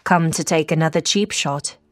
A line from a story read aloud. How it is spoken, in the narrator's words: Panda asked her, his tone flat, refusing to give anything away